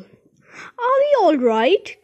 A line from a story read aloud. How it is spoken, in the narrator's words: cried Grandpa Joe